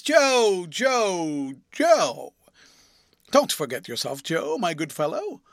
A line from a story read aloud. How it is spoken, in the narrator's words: Crisparkle interposed, remonstrating aside in a friendly voice